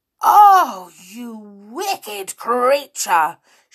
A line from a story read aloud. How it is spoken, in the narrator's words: shouted Molly in a rage